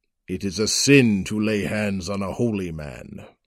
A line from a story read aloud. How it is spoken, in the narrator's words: he rumbled